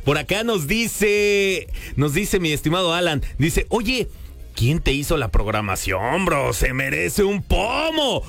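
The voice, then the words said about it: Strong Mexico City chilango accent. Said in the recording (Spanish): “traigo como el acento muy, muy chilango ... A veces soy medio ñero”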